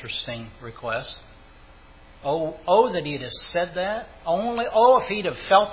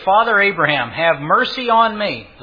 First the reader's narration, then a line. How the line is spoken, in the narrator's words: He cried and said